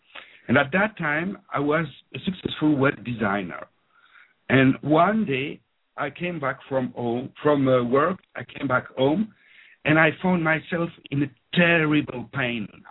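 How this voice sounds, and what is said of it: French-speaking Belgian accent. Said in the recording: “So I grew up in Belgium. As you can hear from my accent, I'm French-speaking”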